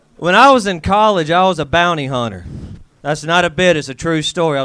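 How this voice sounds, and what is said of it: Southern US accent with twang. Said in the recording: “I am from the South. And I have to say, it's fun having a Southern accent in L.A. ... this old twang”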